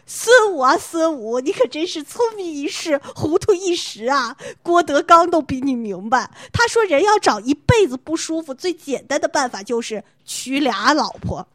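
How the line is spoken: Long sigh amid laughter. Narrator (Chinese): 在众人的笑声当中，就听学长仰天长叹道

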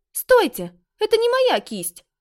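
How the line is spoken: Exclaim. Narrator (Russian): воскликнула она

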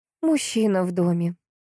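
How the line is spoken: Bitter sigh, then tears. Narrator (Russian): горько вздохнула тогда сестра, уткнувшись в его макушку и залилась слезами

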